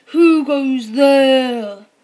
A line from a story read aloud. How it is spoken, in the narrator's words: the evil dragon boomed